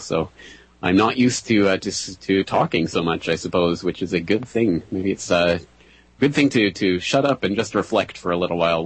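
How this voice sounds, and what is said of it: Tired, fading voice. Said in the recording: “I am jet-lagged and tongue-tied ... my voice is fading already”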